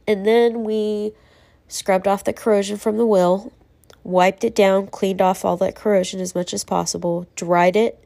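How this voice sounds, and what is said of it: Tired, congested voice. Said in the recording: “you can hear it in my voice, I'm sure. I'm worn out. ... nasal congestion”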